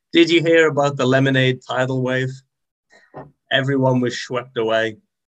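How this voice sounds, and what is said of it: Scouse (Liverpool) accent. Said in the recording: “The way you said that in your accent ... is a great Scouse line.”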